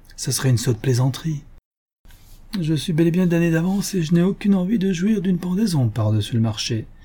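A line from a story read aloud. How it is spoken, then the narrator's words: Forced playful tone. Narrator (French): fit-il d'un ton badin, mais forcé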